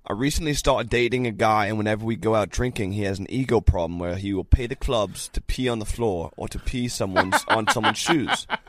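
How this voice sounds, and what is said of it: Mixed fake British-European accent. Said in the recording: “I'll read it in a British accent ... I love that accent because you said it was a European accent, and it was literally a combination of like British, Polish, Italian, and Russian, yeah, all in one”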